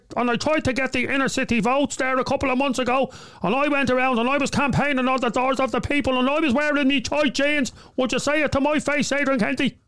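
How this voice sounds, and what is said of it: Impression of a local politician. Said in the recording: “that's a good impression”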